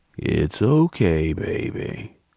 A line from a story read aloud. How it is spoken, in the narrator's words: Jordan crooned in his rocky voice